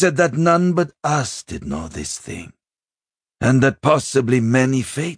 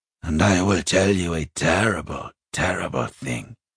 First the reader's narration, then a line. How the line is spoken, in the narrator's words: he said miserably